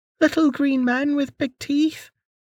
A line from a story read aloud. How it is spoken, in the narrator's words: the girl whined